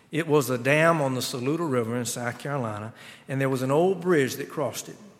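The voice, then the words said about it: Regional American Southern accent. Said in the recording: “forgive my accent”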